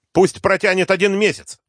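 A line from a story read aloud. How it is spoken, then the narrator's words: Angry. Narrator (Russian): зло бросил Кочаевский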